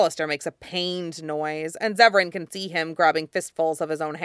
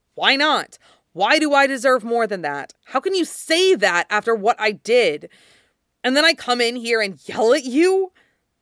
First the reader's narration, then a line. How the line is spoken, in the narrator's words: He's breathing hard, great gasps like he might be crying